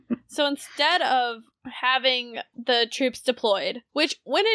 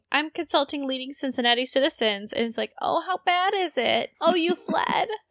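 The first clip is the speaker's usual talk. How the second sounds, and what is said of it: Mocking spineless politician character voice. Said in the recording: “Is that a pretty good impression? ... I'm just doing my standard politician doesn't have balls ... That's pretty good. ... Or a spine.”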